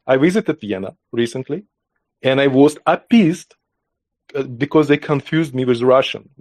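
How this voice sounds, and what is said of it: Russian-sounding accent. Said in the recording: “My accent sounds Russian.”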